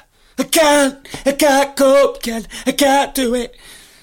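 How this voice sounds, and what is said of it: Imitates another person's voice. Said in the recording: “me Deirdre Barlow impression”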